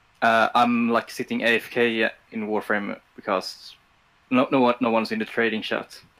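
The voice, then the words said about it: Swedish-accented English, sounds offended. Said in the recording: “calling from Sweden ... The way you said that sounded offended ... That's just my accent.”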